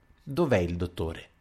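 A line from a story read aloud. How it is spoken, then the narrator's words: Icy voice. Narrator (Italian): disse con la sua voce gelida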